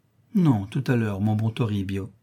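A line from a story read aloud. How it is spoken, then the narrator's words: Affectionate but firm. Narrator (French): Elle répond d'une voix affectueuse mais ferme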